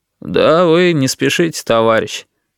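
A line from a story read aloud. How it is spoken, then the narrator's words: Bored voice. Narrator (Russian): скучным голосом сказал Витька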